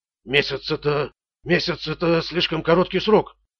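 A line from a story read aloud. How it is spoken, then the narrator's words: Debtor's timid babble. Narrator (Russian): пролепетал должник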